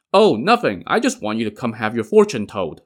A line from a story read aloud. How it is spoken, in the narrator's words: Liu Qian replied